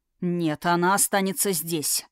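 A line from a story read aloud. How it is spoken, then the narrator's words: Forced, muffled tone. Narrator (Russian): выдавил он глухим тоном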